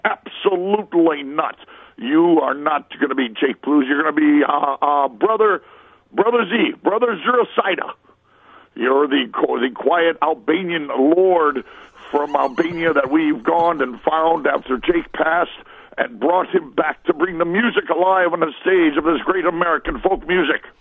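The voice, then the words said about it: Dan Aykroyd impression. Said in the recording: “That's a great Dan Aykroyd impression.”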